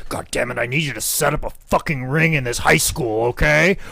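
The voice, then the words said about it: Imitates another person's voice. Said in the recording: “my my Michael Bochicchio impersonation is the same as my Vince McMahon impersonation”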